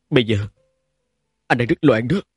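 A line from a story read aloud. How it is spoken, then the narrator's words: Bitter hoarse voice. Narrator (Vietnamese): Tiếng nói của Trình Dịch Hòa mang theo sự đắng chát và khàn khàn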